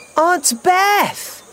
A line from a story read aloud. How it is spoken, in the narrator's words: cried Leo